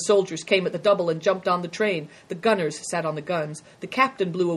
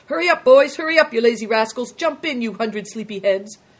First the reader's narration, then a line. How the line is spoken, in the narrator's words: called out